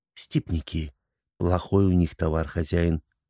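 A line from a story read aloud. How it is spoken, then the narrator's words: Whispering. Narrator (Russian): Шургар зашептал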